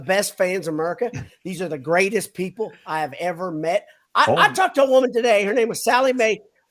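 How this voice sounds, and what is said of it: Put-on Southern US accent. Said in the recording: “I could go into full Southern all the time. It wouldn't take anything. I just did it right there ... you sounded like Jimbo ... Is that a panhandle accent?”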